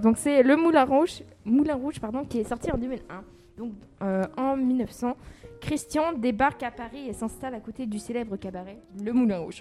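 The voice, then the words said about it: Slight accent in French. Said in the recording (French): “Elle a un petit accent. ... J'ai un petit accent”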